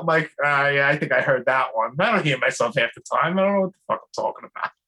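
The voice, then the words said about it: Brooklyn accent. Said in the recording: “my stupid Brooklyn accent ... everyone says that I have an accent”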